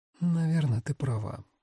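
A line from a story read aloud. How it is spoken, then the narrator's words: Mumble. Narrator (Russian): пробормотала Насим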